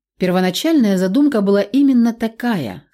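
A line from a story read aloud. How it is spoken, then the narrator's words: Calm admission. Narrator (Russian): спокойно признал он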